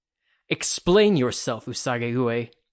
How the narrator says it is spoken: he barked

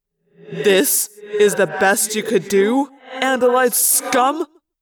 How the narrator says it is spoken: laughed

